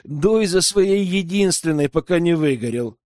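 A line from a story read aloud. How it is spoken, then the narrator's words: Cheerful chuckle. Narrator (Russian): весело хохотнул Бенедикт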